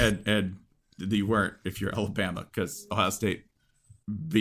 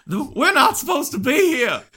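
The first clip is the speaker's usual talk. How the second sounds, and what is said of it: Put-on Southern US accent. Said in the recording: “In your southern voice?”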